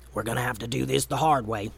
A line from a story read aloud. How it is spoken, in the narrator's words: Momo was close enough to Gray to whisper